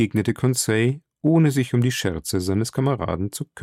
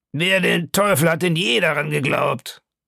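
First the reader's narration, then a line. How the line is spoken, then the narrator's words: Man calling out. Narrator (German): rief der Kanadier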